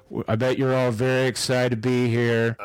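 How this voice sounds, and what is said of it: Monotone, deep, slightly drunk-sounding voice. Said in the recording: “He almost sounds like he's a little drunk ... got a little bit more monotone bass voice”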